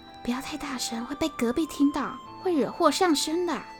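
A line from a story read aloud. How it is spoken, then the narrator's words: Wary whisper. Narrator (Chinese): 罗百祥警戒的小声说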